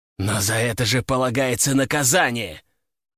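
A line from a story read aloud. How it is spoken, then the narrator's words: Growled. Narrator (Russian): прорычал император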